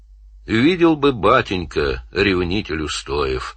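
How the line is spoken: Snorting chuckle. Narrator (Russian): хмыкнул он

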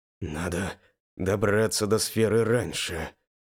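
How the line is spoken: Quiet, to oneself. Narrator (Russian): тихо сказал я сам себе

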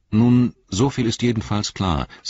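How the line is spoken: Plain. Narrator (German): sagte Legolas

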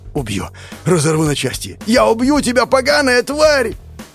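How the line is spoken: Young man yelling through roar. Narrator (Russian): Сквозь рев заорал парень

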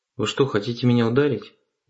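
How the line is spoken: Very calm. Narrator (Russian): Очень спокойно сказал я

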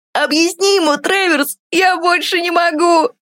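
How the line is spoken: Laughing loudly. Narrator (Russian): хохотал Тин

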